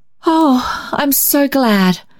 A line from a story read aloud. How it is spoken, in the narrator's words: sighed the little girl